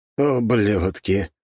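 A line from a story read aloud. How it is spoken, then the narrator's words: Through gritted teeth, heavy sigh. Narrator (Russian): процедил он сквозь зубы и тяжело вздохнул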